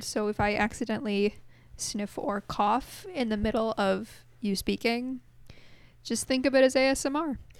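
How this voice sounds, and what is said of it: Voice with a slight cold. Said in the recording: “I have a bit of a cold”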